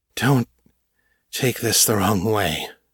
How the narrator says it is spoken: panted

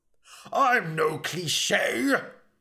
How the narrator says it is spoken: bellowed Elric

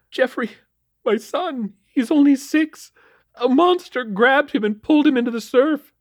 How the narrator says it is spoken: she sobbed

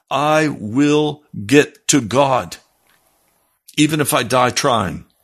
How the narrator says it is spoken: very firmly take a hold of and say

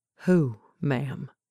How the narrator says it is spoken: the young man inquired softly, but it didn't really sound like a question

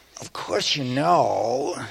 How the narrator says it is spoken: she went on in the assumed voice

